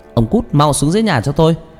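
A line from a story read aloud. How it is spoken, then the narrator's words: Glaring loud scolding. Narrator (Vietnamese): bà trừng mắt nhìn chồng mà quát lớn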